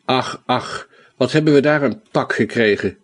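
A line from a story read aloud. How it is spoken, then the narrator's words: Groaning. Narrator (Dutch): kreunde Sancho Panza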